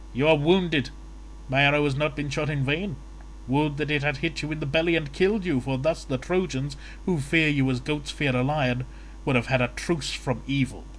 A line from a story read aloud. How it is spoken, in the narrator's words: Paris, with a hearty laugh, taunted him, saying